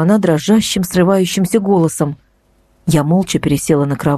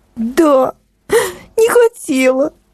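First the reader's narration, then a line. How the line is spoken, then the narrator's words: Sobbing woman. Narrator (Russian): ответила она и всхлипнула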